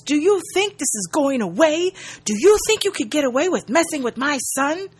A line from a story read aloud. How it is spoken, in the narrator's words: He yells